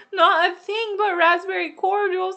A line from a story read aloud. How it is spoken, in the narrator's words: sobbed Anne